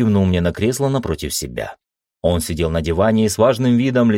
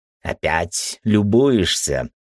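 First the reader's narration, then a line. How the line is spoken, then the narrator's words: Snorting. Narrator (Russian): Эльфчар хмыкнул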